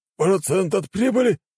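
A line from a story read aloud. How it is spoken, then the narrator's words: Nearly shouted. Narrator (Russian): едва не выкрикнул Дамир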